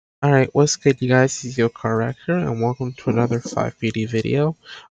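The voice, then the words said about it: Speaking quietly in a low voice. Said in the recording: “sorry I'm talking so low”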